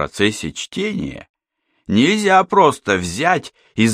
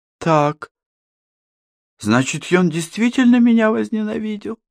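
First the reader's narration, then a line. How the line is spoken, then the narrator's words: Said in a dejected voice. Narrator (Russian): упавшим голосом произнесла Катерина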